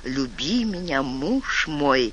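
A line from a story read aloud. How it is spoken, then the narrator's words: Whispering. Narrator (Russian): шептала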